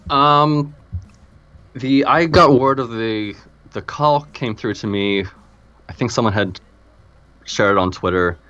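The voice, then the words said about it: Non-English accent. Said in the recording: “everyone can tell from your accent that you're not from, unlike my previous guest, you're not from England”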